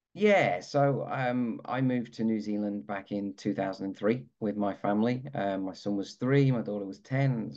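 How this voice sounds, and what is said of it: British accent. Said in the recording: “you're probably hearing the accent, like he's from the UK”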